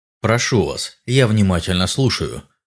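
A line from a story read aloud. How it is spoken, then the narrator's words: Plain. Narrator (Russian): ответил я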